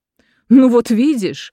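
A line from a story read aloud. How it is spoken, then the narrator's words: Exclaiming, laughing. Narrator (Russian): воскликнула Юфрит и опять засмеялась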